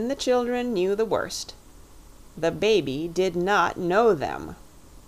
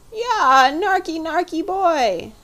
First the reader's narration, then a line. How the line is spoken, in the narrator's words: howled the baby, giving way altogether